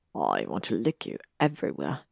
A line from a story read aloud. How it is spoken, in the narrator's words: he rasped against her neck